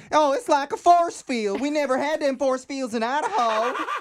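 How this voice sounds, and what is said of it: Imitated Idaho accent. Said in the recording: “That Idaho accent down, too.”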